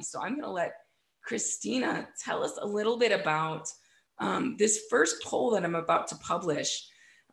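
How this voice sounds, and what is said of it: Froggy voice from the flu. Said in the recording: “forgive my voice tonight ... I got the flu ... my voice is a little bit froggy”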